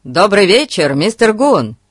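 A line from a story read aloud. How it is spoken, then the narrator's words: Shouting. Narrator (Russian): крикнул Фати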